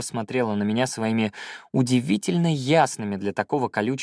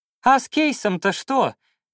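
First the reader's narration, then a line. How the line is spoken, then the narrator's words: Shouting after someone. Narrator (Russian): крикнул ей вслед Рыбкин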